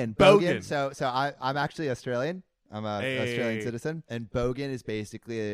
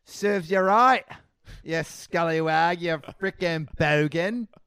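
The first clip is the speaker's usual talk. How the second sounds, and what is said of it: Australian accent. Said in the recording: “in an Australian accent”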